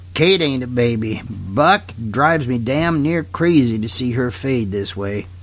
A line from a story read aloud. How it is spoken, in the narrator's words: growled Lee Haines